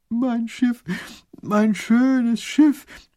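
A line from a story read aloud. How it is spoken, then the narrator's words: Small whining lament. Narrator (German): jammert der kleine Großherzog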